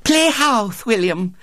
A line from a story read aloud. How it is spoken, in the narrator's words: said Violet Elizabeth eagerly